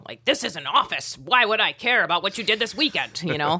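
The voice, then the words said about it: Imitates a 50-year-old man's voice. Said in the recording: “That's my impression of a 50-year-old man”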